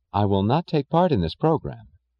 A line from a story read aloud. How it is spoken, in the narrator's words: she said evenly